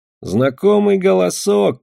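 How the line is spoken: Grumbling. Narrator (Russian): проворчал лебедь

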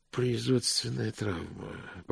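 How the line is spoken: Muttered. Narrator (Russian): пробормотал мокрец

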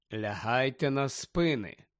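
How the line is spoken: Calm. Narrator (Ukrainian): спокійно вів далі Фіренце

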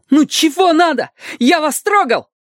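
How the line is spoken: Shout. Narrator (Russian): Потом крикнул

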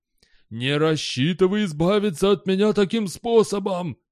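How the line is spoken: Icy wheeze. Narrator (Russian): просипел Зильберкит леденее

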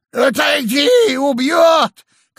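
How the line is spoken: Old man shouting. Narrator (Russian): крикнул старик Эрику

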